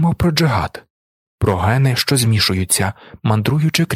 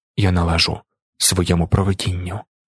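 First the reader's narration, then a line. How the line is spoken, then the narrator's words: Whisper. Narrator (Ukrainian): прошепотів він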